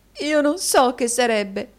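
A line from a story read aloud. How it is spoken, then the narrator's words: Sobbing woman. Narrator (Italian): singhiozzò la signorina Squeers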